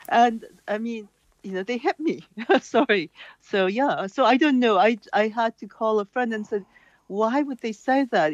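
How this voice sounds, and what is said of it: Non-Irish accent. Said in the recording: “as you can tell from my accent, I'm not from here”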